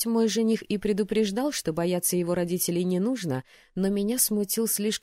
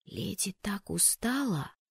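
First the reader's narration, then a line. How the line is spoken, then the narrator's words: Girl's whisper. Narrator (Russian): прошептала одна из девушек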